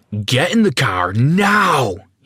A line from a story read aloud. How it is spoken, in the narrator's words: screamed